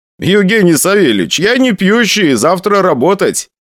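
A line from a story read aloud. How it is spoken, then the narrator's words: Laughing. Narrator (Russian): посмеялся я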